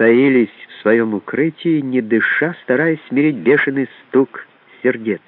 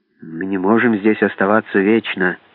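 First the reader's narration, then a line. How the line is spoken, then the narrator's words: Muttered. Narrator (Russian): пробормотал он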